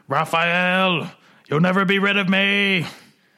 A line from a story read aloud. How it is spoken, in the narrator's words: Zorro screams